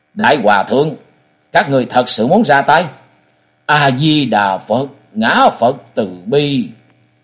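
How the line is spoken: Angry. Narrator (Vietnamese): Trần Lâm giận dữ hướng Ngộ Chân đại sư nói

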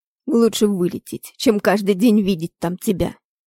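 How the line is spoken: Desperate growl. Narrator (Russian): зарычал Роланд, передавая все отчаяние, вырывающееся из груди

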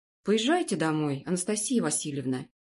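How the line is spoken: Plain. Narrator (Russian): сказал глава комиссии

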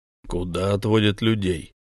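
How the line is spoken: Rough question. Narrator (Russian): грубо спросил Рональд

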